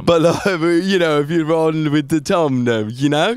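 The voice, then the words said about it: Put-on English accent. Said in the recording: “It might be my accent. I'm from England, mate.”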